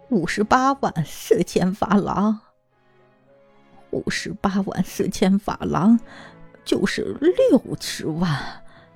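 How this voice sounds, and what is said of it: Quiet, murmured repetition. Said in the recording (Chinese): “小声重复”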